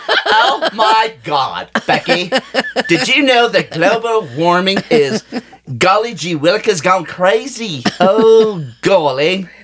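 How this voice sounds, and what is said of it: Put-on Valley Girl accent. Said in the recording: “My accent's going to have to be... Valley Girl.”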